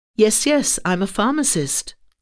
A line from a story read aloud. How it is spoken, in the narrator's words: I answered quickly